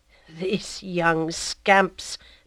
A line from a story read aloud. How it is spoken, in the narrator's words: murmured the priest